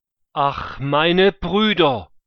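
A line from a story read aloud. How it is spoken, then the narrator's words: Called out. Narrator (German): rief er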